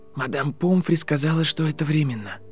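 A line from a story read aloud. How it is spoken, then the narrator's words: Quiet. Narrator (Russian): тихо произнес Гарри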